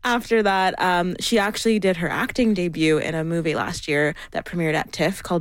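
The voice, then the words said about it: Noticeable accent. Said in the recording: “Oh, I like your accent. Just coming back from Paris.”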